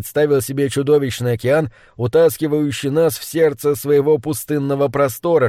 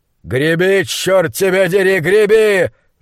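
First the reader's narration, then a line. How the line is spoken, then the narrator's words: Yelling. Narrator (Russian): заорал на него монстролог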